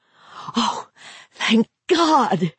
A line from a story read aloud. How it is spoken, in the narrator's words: she cried